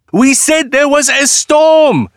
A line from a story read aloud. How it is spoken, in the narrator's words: shouted Malik and Ali